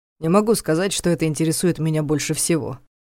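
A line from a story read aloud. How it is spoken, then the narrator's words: Wry snort. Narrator (Russian): хмыкнул Ваня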